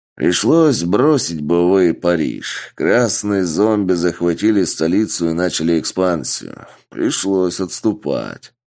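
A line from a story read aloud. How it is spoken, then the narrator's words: Plain. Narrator (Russian): ответил генерал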